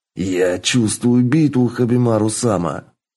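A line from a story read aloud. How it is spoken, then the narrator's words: Boy growling. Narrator (Russian): Прорычал мальчишка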